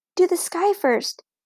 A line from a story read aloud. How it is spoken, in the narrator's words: Beezus whispered to Ramona